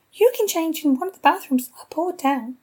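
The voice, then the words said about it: Tinny mocking voice. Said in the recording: “I repeat in a tinny voice.”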